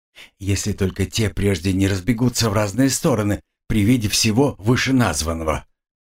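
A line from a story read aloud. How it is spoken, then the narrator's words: Gruff mutter. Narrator (Russian): буркнул Фальк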